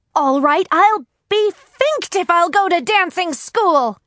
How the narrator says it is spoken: Harriet screamed this solidly

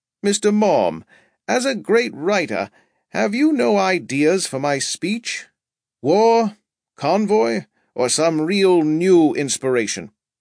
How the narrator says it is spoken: The president laughed and added

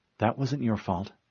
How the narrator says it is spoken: Cortana said gently

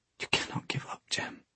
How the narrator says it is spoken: she said in a choked voice

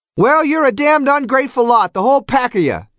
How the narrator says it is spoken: he shouted back

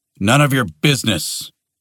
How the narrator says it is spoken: Davis snapped

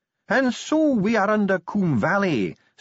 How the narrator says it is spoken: sneered Ardent

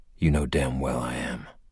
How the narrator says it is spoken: growled, as if it angered him to admit it

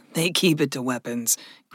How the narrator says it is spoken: Gregory chuckled

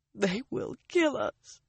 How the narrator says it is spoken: the other woman mumbled faintly and nearly unintelligibly through her sobs

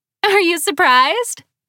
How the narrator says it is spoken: Amber hollered over the music

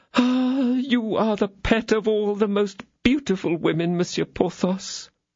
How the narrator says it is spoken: resumed the attorney's wife with a sigh

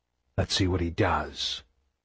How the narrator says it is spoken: Marcus whispered

